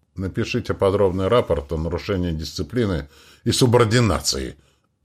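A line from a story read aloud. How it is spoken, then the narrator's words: Angry, curt remark. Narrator (Russian): зло бросила Адлад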